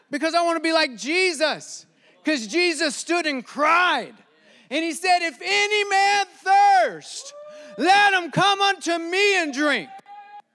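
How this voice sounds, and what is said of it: Yelling preacher. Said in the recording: “why are you yelling so much tonight? Dude, chill.”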